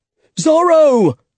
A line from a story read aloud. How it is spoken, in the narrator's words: shouted someone in the square